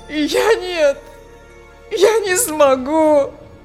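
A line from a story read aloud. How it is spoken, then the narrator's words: Sobbing. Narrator (Russian): Всхлипнул Фель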